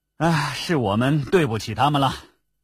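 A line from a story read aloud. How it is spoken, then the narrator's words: Sighing. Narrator (Chinese): 完颜康叹了口气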